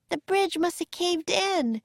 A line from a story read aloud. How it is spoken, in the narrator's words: cried Annie